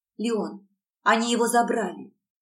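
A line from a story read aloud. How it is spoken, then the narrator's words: Forced calm. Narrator (Russian): Стараясь звучать спокойно, сказала ему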